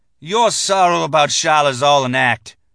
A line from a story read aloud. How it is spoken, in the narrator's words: he spat at me